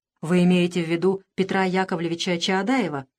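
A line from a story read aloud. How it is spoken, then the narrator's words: Plain question. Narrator (Russian): спросил юноша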